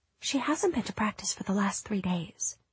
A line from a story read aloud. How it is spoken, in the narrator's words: Molly whispered